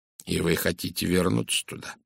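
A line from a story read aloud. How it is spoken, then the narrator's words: Gentle question. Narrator (Russian): мягко спросил Пуаро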